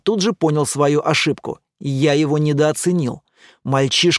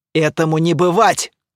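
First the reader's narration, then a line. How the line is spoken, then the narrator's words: Shout. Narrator (Russian): крикнул Эр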